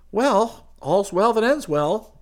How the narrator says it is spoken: Chris said brightly

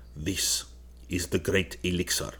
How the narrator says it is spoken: said the Arab in a low, impressive voice

